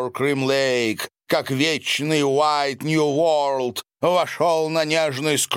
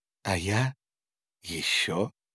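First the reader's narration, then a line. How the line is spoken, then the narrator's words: Sleepy, smiling. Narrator (Russian): сонно улыбнулась она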